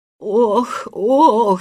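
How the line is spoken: Moaning. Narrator (Russian): стонал он

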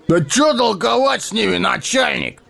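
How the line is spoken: Rude shout. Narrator (Russian): грубо выкрикнул он

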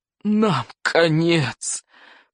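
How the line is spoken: Groaning despair. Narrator (Russian): простонал Норберт сумасброд

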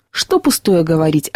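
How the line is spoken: Dry reply. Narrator (Russian): отвечал сухо Сергей

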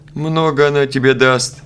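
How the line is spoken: Laughing. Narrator (Russian): засмеялся Васо

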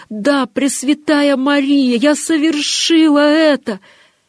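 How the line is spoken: Voice regained, loud exclamation. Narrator (Russian): Тогда вернулся к ней голос, и она громко воскликнула

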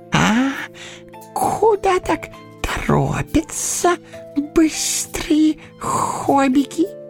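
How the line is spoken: Squeaking. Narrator (Russian): пискнул он

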